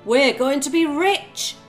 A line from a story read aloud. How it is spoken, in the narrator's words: shouted the farmer